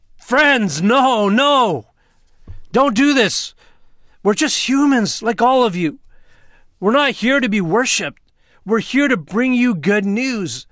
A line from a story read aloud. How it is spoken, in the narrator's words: Paul and Barnabas shouting